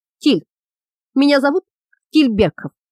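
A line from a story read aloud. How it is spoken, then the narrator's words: Hoarse rasp. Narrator (Russian): он прохрипел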